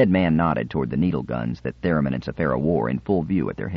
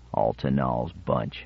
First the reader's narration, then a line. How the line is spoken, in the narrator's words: one of the other cutthroats murmured